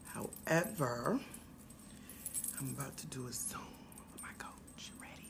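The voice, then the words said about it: Whispering. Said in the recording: “Not sure why I'm whispering.”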